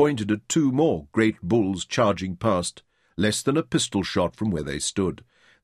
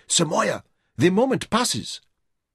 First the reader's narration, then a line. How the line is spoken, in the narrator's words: Buckhut told him urgently